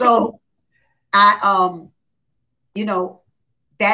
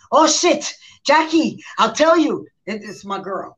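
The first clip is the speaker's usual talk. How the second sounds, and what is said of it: Imitated heavy Haitian accent. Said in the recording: “they from Haiti. So she got accent, heavy accent, and she speaks French as well”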